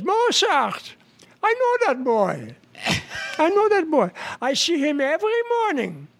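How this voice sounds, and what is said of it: Put-on Jewish accent. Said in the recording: “any other jokes with a Jewish accent? ... With a Jewish accent?”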